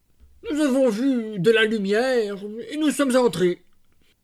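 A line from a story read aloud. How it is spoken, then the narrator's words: Stammering in unison. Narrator (French): balbutièrent-ils tous les deux ensemble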